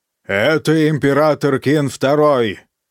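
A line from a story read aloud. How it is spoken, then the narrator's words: Barking. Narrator (Russian): рявкнул он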